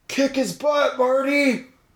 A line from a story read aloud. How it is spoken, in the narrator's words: Jason yelled out